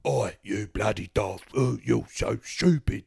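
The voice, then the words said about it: Bad imitation of an English accent. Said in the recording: “he does a really bad... But he can't do a very good English accent.”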